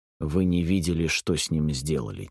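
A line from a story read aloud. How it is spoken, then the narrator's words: Quiet. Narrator (Russian): тихо произнес я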